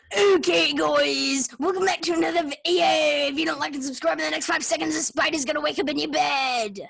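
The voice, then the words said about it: Generic YouTuber voice. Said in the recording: “doing a YouTuber impression ... It's not a specific YouTuber ... a general YouTuber”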